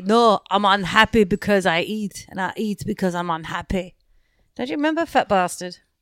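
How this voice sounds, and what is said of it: Scottish accent, Fat Bastard voice. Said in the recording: “Is that your Scottish accent?”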